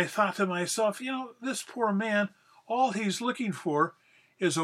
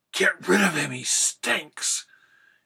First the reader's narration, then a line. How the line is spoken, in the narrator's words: one of the ladies whispered at the top of her voice